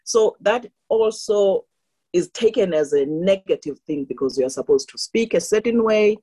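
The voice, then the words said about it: Non-native English accent. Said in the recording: “I'm sure you can even hear from uh, my own accent that uh, I don't come from the so called model schools. I come from schools from rural areas.”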